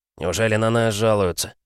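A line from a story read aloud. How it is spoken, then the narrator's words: Gruff mutter. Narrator (Russian): буркнул микроб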